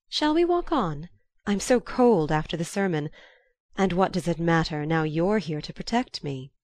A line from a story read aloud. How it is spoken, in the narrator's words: rejoined in a lighter tone